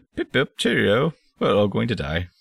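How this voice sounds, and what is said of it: Mild put-on British accent. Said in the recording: “sarcastic British-voiced robot ... you did a British voice ... A little bit. Not much. I try to really rein it in.”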